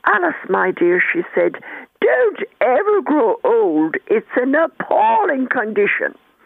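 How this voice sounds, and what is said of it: Very posh Anglo-Irish accent. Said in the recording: “She was very posh ... in her very, very posh Anglo-Irish accent”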